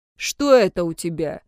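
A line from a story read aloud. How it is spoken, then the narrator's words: Angry question. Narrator (Russian): зло спросил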